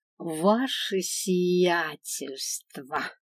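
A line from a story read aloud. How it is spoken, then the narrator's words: Mocking drawl. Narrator (Russian): издевательски протянула я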